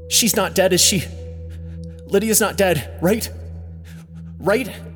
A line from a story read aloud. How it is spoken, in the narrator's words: he asks desperately